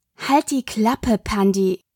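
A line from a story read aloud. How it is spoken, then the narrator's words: Growling sister. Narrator (German): Das Knurren ihrer Schwester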